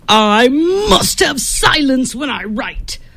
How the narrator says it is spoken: Flood yelled at his nephew

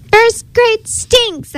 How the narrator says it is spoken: I yell

